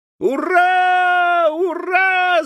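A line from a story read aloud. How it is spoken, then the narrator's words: Shouted. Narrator (Russian): закричал Тим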